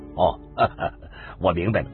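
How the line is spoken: Thoughtful, then sudden smile. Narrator (Chinese): 沉思着，又过了很久，突然笑了笑

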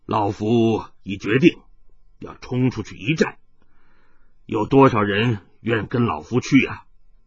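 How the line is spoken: Sudden deep voice. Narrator (Chinese): 李洛阳突然沉声说道

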